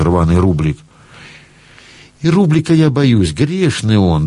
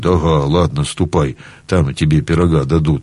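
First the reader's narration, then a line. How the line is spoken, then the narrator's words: Gruff mumble. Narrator (Russian): только буркнет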